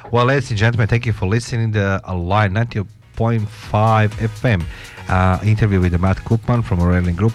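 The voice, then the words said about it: Non-native accented English. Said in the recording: “my lovely sexy voice with my awesome English, which you don't understand”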